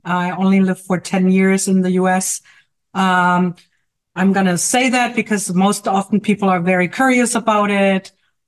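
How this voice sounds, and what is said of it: German accent. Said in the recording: “As you may hear from my accent ... I'm actually from Germany”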